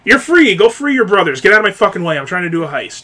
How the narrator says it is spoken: very sarcastically goes

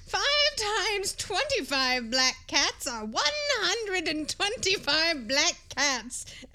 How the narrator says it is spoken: added the wise woman with a chuckle

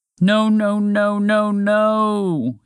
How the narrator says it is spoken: moaned

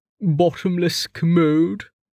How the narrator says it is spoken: Stavo groaned

